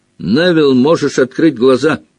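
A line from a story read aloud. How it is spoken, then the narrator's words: Shouting. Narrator (Russian): крикнул Рон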